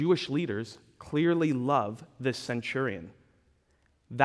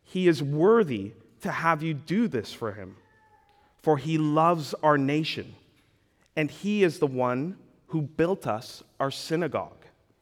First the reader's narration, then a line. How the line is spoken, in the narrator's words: they, the Jewish elders, pleaded with him earnestly, saying